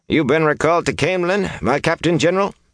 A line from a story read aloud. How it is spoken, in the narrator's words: he panted